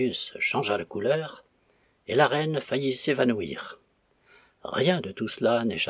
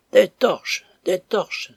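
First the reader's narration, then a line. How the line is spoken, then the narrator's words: Startled cry. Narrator (French): s'écria Claudius, comme s'il eût été piqué par un aspic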